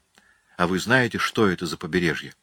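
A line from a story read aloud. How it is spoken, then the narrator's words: Unconcerned calm voice. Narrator (Russian): Ответил ей Блэкфиш, причем таким спокойным голосом, словно опасность его не касалась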